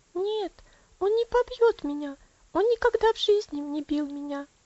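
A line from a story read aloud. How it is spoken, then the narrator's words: Quick reply. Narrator (Russian): быстро ответила Элси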